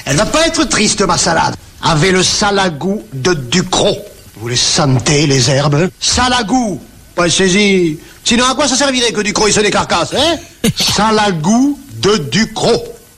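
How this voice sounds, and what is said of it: Strong Provençal French accent. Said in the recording (French): “un cuisinier moustachu avec un énorme accent provençal”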